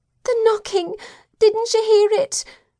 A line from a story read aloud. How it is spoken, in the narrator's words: my youngest daughter sobbed